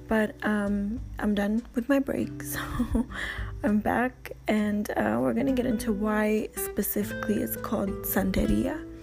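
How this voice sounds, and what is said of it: Raspy, strained voice. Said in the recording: “my voice, uh, my throat is getting raspy.”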